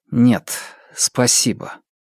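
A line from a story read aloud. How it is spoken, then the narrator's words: Strained mutter after pause. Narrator (Russian): Фанму выдержал паузу, а потом сдавленно пробормотал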